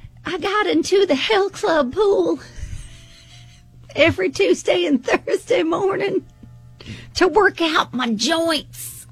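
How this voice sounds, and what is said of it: Old lady character voice. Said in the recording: “old lady voice”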